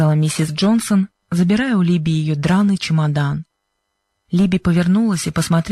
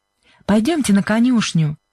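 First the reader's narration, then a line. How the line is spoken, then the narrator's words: Cheerful. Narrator (Russian): весело сказала Сьюзен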